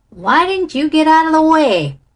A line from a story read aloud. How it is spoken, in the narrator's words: roared Danny Rugg roughly